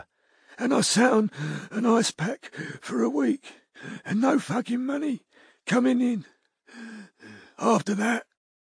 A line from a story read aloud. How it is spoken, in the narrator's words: she panted